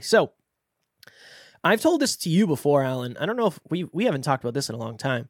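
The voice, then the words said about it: Slightly off, sickly-sounding voice. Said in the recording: “as you can hear, maybe, I know I can hear it, in my playback, my voice is a little bit off because I am somehow under the weather”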